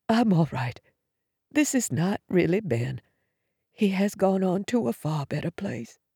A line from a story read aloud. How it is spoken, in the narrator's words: Drawing a shuddering breath, Mom whispered